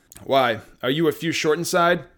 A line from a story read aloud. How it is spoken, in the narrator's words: exchanged in half laughs